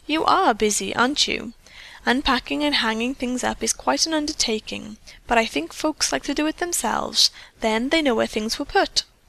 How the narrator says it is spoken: she said kindly

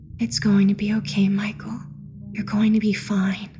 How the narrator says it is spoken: She spoke in a soft and soothing tone, as she whispered

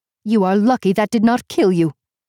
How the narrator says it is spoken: she snapped

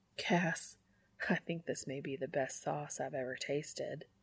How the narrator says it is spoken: Dean murmurs, smiling against Cass's mouth

